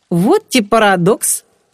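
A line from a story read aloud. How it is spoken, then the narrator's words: Laughing. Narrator (Russian): рассмеялся Женька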